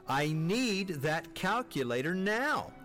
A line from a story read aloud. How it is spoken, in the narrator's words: Mom called again, her voice rising in pitch